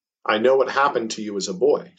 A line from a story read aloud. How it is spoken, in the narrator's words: she said